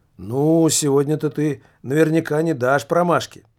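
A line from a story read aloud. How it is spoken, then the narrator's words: Cheerful, casual. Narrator (Russian): весело и как-то о чем-то совершенно будничном проговорила Аделла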